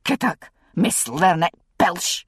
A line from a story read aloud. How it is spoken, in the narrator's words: bellowed Mrs